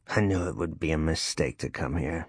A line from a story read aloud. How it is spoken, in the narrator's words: he mumbled